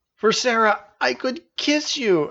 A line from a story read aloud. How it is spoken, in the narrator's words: exclaimed Janice